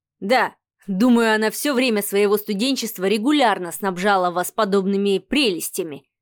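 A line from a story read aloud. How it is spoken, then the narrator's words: Smirking snort. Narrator (Russian): хмыкнул Адмиралов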